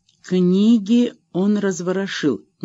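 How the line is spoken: Slow musing. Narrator (Russian): медленно соображала она

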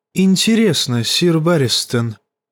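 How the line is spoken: Quiet question. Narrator (Russian): негромко спросил Варис

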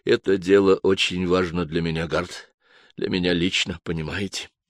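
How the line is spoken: Quiet. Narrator (Russian): Префект произнес тихо

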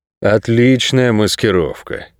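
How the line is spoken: Relieved sigh. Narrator (Russian): с облегчением вздохнул Нерет

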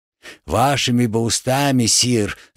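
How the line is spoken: Melancholy sigh. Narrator (Russian): тоскливо вздохнул воин

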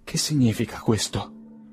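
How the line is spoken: Moved, emotional question. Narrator (Italian): domandò con voce commossa

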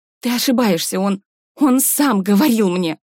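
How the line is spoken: Forced out with difficulty. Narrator (Russian): С трудом, как страшное признание, выдавила Сара

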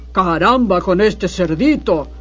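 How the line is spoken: Hungry wolf growling. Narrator (Spanish): gruñó el hambriento lobo

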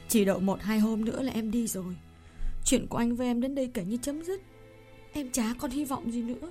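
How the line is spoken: Choked with emotion. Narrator (Vietnamese): cô nghẹn ngào nói

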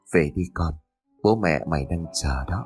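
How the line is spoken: Soft whisper. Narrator (Vietnamese): Lão khẽ thì thầm

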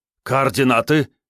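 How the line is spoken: Officers exclaiming almost in unison. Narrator (Russian): чуть ли не хором воскликнули офицеры

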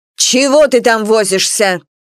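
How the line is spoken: Barking shout. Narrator (Russian): гаркнула Анфиса

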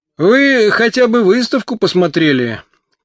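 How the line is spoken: Shouting in pain. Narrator (Russian): кричал, прикладывая к ушибам снег, первый в городе апологет формализма

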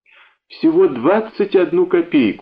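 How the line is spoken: Pleading voice. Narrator (Russian): умоляющим голосом сказал я

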